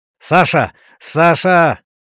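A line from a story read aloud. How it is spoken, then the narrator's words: Shouting. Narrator (Russian): кричал Данзас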